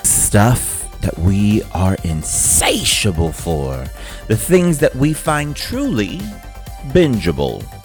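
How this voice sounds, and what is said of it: Put-on DJ announcer voice. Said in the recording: “enough of this DJ voice.”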